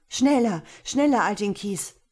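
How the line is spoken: Calling. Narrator (German): rief Sasembeh

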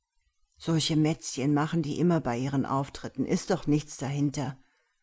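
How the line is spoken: Whispering back. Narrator (German): flüsterte ich zurück

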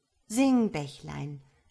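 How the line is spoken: Plain. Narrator (German): sagte der Star

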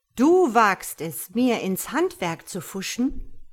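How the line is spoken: Thundering god. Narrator (German): donnert Gott

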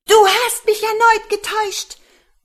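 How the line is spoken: Old woman shouting. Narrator (German): Die Muhme schrie

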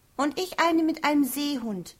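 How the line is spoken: Excited call. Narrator (German): rief Jenny, während sie aufgeregt auf dem Bett auf- und abhüpfte

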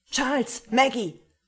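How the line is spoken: Bellowing into silent house. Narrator (German): brüllte er in das stille Haus hinein

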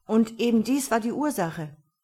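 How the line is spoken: Calling out. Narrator (German): rief Nardan

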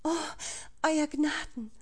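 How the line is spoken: Sigh. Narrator (German): seufzte sie

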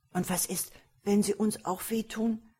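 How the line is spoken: Fearful child interjecting. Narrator (German): warf der jüngere Zwilling ängstlich ein

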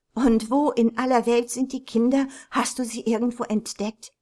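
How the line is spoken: Calling out. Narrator (German): rief Mrs

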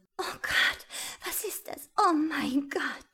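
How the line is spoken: Soft scream. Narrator (German): schrie leise

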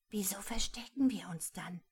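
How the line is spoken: Whisper. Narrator (German): flüsterte Rosmarie

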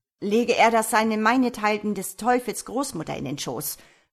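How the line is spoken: Blustering little gentleman. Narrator (German): polterte der kleine Herr zu dem Haushofmeister

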